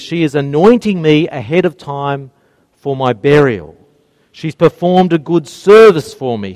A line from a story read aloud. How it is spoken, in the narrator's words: he says